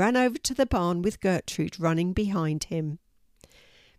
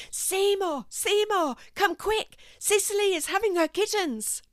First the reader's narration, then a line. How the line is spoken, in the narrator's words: a grey striped cat came running out of the barn shouting